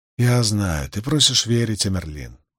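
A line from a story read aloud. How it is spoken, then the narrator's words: Young man sighing. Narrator (Russian): вздохнул юноша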